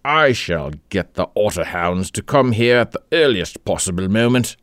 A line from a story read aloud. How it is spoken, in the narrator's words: said Egbert savagely